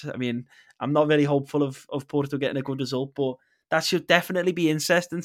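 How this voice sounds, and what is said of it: Scouse accent. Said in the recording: “those who are listening to this will probably hear the Scouse accent”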